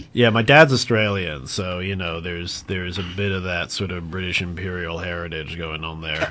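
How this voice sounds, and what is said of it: Australian accent. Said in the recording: “But the accent is Aussie.”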